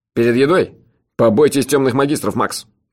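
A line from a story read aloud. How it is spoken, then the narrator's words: Stern. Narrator (Russian): строго сказал хозяин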